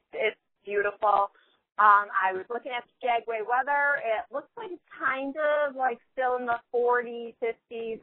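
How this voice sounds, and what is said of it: Excited, upbeat voice. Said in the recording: “I am so excited. I'm sure you can hear it in my voice.”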